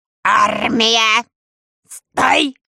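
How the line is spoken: Deafening bark. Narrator (Russian): оглушительно рявкнул Ланд-Пирот

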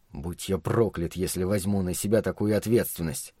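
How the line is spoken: Sullen grumble. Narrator (Russian): пробурчал угрюмый голос

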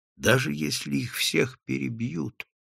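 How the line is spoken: Whisper. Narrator (Russian): шептал Редвуд

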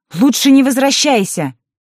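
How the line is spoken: Shouted after. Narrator (Russian): Илина крикнула ей вслед

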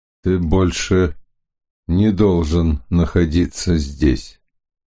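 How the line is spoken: Indifferent icy tone. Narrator (Russian): сказал безразличным ледяным тоном

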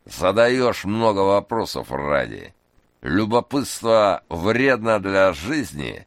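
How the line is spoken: Creaky, cigarette in mouth. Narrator (Russian): тот, кого назвали Мелом, проскрипел, не вынимая изо рта окурка

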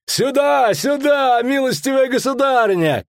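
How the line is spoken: Guard's frightened shout. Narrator (Russian): крикнул один из стражников, бледнее

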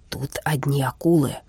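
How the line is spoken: Whispered. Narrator (Russian): шепнул Хиппель

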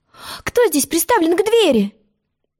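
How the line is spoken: Angry question. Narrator (Russian): сердито спросила она

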